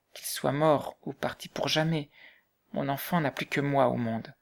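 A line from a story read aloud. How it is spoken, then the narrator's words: Murmured. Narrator (French): murmura-t-elle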